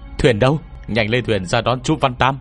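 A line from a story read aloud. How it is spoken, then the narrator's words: Urgent roar. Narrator (Vietnamese): tôi vội gầm lên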